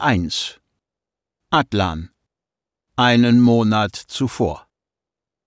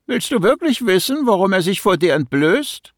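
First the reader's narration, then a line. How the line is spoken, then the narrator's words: Mocking. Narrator (German): spottete mein Extrasinn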